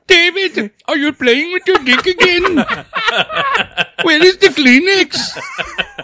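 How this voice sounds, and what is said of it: Put-on Indian accent, mother voice. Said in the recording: “accent ... Can you do his mom Hindu?”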